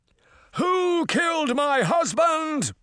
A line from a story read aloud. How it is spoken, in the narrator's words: Titania cried